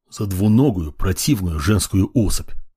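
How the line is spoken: Muttering under breath. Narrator (Russian): пробормотал сам себе под нос

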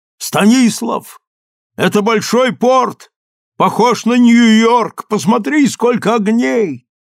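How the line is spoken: Frightened shout. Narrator (Russian): Мне стало страшно, и я крикнул

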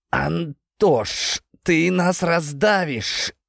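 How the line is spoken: Strained hiss. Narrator (Russian): кое-как прошипел я

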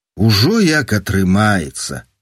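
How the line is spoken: Sighing. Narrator (Belarusian): уздыхнул тумар

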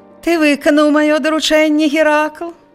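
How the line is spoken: Sugary question. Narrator (Belarusian): саладжавым голасам запытаўся цар

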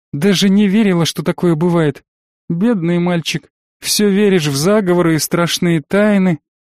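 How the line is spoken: Sad laugh. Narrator (Russian): грустно посмеялась Таня

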